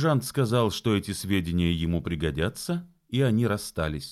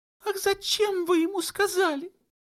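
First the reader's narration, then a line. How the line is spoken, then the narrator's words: Whimpering. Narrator (Russian): захныкала Матильда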